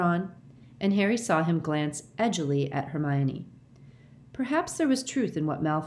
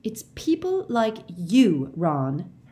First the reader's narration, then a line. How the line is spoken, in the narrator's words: Hermione began hotly